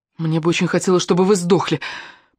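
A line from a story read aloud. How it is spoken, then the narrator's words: Mumbling. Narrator (Russian): пробормотала Алена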